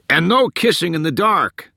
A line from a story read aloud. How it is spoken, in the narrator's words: someone yelled